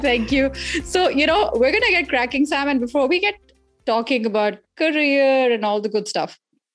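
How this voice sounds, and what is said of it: Indian accent. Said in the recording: “how fabulous your accent is. Like, I could listen to you talk all day ... It's an Indian accent.”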